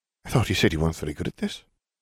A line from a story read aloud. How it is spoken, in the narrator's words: she muttered